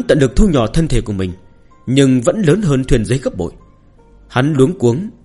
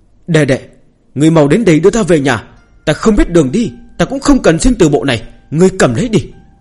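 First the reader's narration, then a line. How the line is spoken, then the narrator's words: Frightened loud cry. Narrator (Vietnamese): Hắn sợ hãi, lớn tiếng la lên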